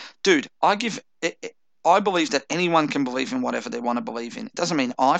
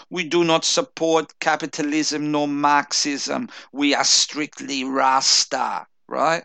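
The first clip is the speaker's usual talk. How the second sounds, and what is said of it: Put-on Rastafarian accent. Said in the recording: “put on my best Rastafarian voice”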